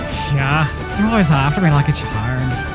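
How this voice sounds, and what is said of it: Bad put-on Irish accent. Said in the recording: “completely bastardized version of the Irish accent”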